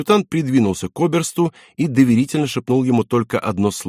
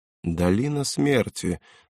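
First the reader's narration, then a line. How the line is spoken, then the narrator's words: Thoughtful repetition. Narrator (Russian): задумчиво повторил фон Герделер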